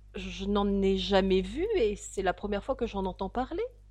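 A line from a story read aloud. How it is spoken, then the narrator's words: Plain. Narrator (French): dit Alice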